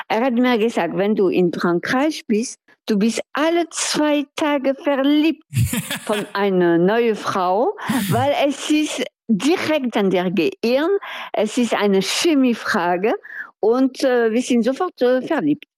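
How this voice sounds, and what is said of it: German with a French accent. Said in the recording (German): “deinen Akzent, also wenn du jetzt Deutsch sprichst und dann trotzdem diesen französischen Einschlag hast ... ich finde meinen Akzent blöd ... Ich finde das so karikatural”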